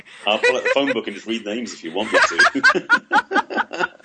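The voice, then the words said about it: English Essex accent. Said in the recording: “Your accent's fabulous ... that incredible accent ... Originally from England. I'm an Essex boy by birth”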